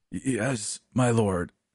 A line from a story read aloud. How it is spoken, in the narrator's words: I choked